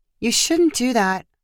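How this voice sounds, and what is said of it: Gentle, soft voice. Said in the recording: “Heather said in a gentle voice.”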